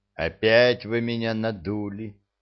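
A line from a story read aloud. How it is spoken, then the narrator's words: Grumbling. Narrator (Russian): проворчал я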